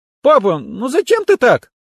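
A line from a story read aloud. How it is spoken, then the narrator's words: Embarrassed squeak. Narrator (Russian): пискнула Катя, залившись краской и закрыв лицо руками от смущения и, надеюсь, радости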